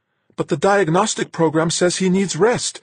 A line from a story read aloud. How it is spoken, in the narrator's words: Marguerite pleaded